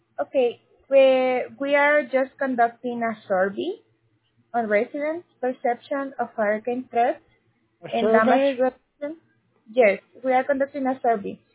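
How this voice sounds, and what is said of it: Strong accent. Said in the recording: “Your accent is so strong, I can't understand it.”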